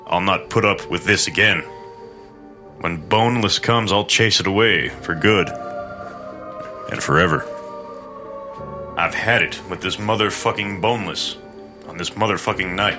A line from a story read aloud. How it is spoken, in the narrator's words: said